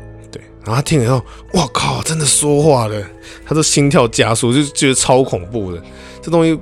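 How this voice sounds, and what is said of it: Usual voice. Nothing is said of it.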